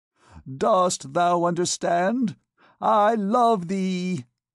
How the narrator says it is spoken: he cried again

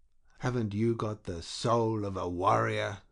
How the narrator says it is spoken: the Frenchman asked in an angry whisper, but with something of a mocking intention in it

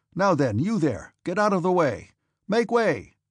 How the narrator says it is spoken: shouting continually

